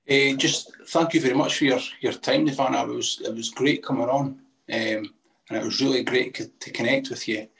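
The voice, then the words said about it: Scottish accent, speaking slowly. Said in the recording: “you specifically are speaking slowly, because Scottish accent”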